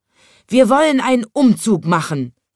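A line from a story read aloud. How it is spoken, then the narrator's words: Roaring lion. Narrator (German): brüllte der Löwe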